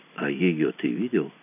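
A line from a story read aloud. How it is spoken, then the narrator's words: Quiet question. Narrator (Russian): спросил Мазур тихо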